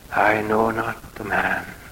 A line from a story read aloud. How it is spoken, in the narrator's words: Peter said